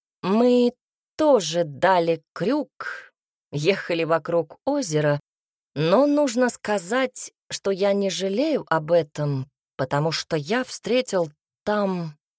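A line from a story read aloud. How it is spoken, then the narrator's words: Slow drawl. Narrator (Russian): Альберт произнес, медленно растягивая слова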